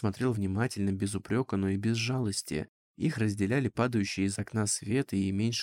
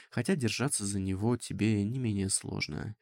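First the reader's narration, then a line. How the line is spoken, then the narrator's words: Soft objection. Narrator (Russian): мягко возразил Вальин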